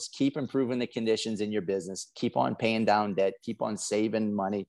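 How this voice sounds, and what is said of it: South Louisiana accent. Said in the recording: “I'm from South Louisiana. I got a funny accent.”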